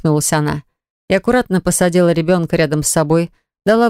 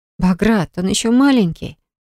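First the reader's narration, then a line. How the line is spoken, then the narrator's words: Sighing. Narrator (Russian): вздохнула Милана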